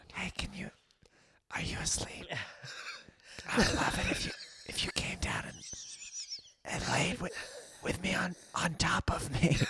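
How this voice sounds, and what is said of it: Whispering. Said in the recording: “why is this whispering going on for so long?”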